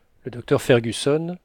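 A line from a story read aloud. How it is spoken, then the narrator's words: Exclaimed. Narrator (French): s'écria le lieutenant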